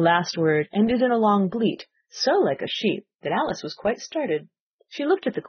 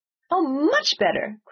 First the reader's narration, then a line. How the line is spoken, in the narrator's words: cried the Queen, her voice rising to a squeak as she went on